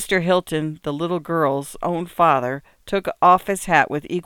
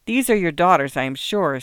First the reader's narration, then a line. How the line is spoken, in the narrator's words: said the old gentleman kindly